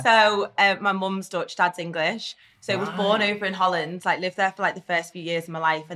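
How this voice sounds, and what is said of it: Strong accent. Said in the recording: “It's my accent's so strong”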